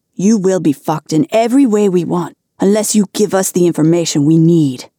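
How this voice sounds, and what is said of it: Commanding voice. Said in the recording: “in a commanding voice”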